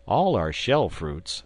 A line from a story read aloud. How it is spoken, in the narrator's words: answered I